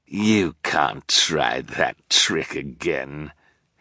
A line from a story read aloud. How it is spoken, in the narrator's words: he sneered